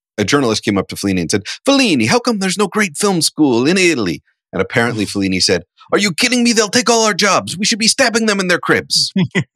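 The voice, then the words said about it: Put-on Italian accent. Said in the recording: “I'm going to do the accent ... am I getting canceled for the Italian accent?”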